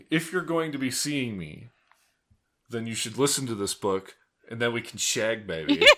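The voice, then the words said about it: Imitates another person's voice. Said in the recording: “Every time someone says shag, I think Austin Power ... I can work on my impression a little bit ... Yes, please work on your impression.”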